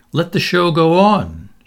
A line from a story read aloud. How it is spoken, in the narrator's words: shouted Canty